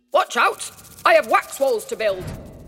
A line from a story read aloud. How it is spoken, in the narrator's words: an architect bee, who told him in a stern voice